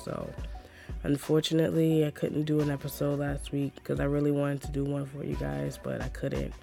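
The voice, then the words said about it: Hoarse, strained voice. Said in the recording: “My throat hurts so bad... My voice was so shot... my voice is still bad”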